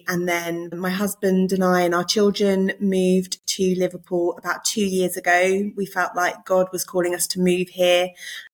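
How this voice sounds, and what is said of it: Non-Liverpool English accent. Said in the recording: “I'm not a Scouser, in case you can't tell from my accent. ... I was born in Surrey”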